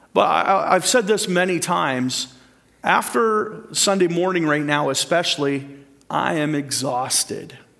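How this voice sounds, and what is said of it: Worn-out, fading voice. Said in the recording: “as you can hear by about now my voice is about done”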